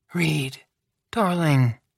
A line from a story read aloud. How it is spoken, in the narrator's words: Madame Lebel interrupted gently